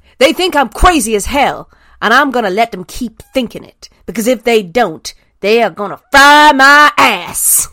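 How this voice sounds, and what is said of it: Generic put-on Southern American accent. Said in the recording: “in your best crazy Southern American lady accent ... I'm so sorry if I just do a generic Southern accent”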